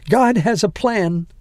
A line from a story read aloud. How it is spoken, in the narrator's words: said Alicia, her voice breaking